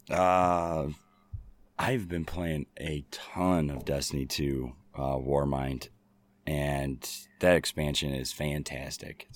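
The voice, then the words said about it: Hoarse, fading voice. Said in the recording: “losing my voice. ... me screaming at the TV”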